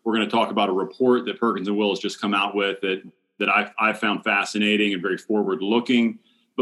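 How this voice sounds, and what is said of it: Polished radio announcer voice. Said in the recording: “I told you I was going to put my radio voice on... You really did.”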